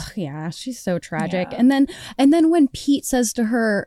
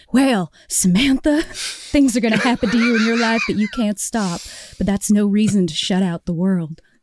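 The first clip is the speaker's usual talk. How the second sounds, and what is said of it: Imitated film character, New England accent. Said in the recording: “I'm going to do an actual impression. ... He's not Southern. He's New England, from New England.”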